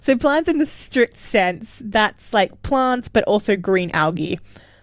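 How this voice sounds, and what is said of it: Australian accent. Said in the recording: “I'm sorry about the way I'm saying Latin with an Australian accent”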